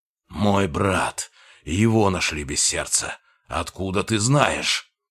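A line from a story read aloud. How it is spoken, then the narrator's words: Growled. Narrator (Russian): прорычал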